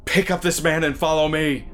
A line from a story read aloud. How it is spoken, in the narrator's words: I yell